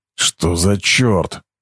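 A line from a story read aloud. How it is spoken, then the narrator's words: Mutter. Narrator (Russian): пробормотал Харви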